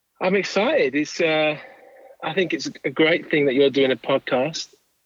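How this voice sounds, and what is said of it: English accent. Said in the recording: “from your accent, it sounds to me like you are from a foreign country ... I'm from just outside of London in the countryside of Kent in England originally.”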